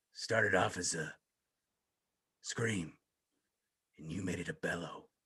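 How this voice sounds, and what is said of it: Imitates another person's voice, Batman-like growl. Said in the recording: “I don't do a great Triple H ... It was pretty good. It sounded like Triple H doing an impression of Batman.”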